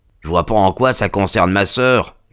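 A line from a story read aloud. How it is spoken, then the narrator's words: Son grumbling. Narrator (French): grommela le fils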